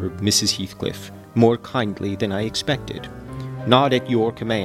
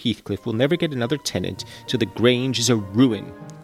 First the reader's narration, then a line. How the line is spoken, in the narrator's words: she answered sharply